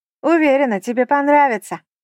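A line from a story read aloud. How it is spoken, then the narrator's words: Calling out after someone. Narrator (Russian): крикнула вдогонку Хелена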